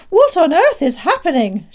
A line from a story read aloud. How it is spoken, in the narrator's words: She shrieked